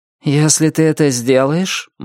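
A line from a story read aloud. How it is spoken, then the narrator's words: Grim declaration. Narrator (Russian): мрачно заявил внутренний голос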